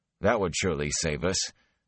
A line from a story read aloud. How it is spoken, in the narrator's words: Perrin said dryly